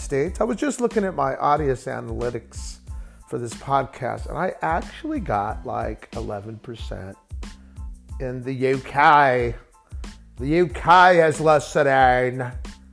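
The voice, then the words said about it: A put-on accent. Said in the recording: “Why am I doing this accent?”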